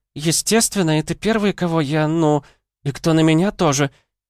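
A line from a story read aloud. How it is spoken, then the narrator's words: Blurted, bursting into tears. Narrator (Russian): выпалила и разрыдалась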